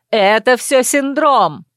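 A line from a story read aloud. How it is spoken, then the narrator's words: Yelled after someone. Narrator (Russian): орала та в спину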